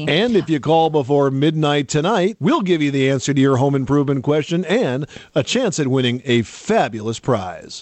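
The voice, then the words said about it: TV announcer voice. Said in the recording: “I wanted you to do a better TV announcer voice. I wanted you to be like, but wait,”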